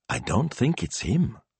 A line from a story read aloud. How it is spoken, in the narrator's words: she whispered